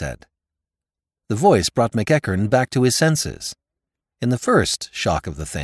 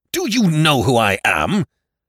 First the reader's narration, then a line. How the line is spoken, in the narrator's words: thundered McEachern